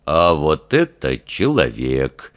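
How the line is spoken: Unexpectedly calm declaration. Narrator (Russian): неожиданно спокойно заявил Фример

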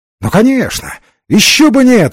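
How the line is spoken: Exclaimed with forced cordiality. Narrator (Russian): воскликнул Ренсом, с несколько вымученной сердечностью

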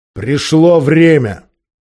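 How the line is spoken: Growled. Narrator (Russian): прорычал

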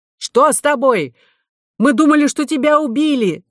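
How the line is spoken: Shouted. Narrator (Russian): закричал Мелодар

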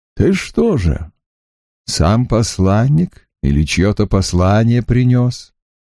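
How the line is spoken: Gentle question. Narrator (Russian): ласково спросил у птицы Агион

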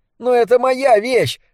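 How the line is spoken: Shouted in reply. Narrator (Russian): закричал в ответ Дебона

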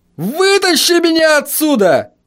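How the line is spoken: Yelling. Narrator (Russian): завопил он

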